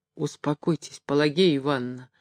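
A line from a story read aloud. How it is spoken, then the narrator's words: Hollow, muffled voice. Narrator (Russian): сказал он глухим голосом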